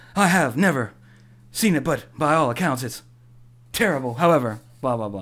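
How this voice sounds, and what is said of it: Imitates another person's voice. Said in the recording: “This is my William Shatner.”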